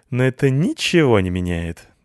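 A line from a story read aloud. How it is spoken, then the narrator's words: Sad laugh. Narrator (Russian): грустно засмеялась она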